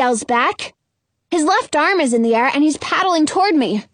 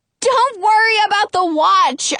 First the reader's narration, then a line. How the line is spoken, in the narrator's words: I yell back